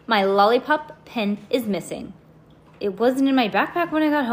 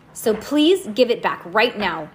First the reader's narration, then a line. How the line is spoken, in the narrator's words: Lucy said firmly